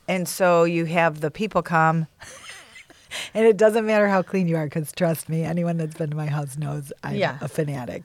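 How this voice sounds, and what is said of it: New York accent. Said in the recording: “I like how you say cockroaches. ... It's your accent ... From New York.”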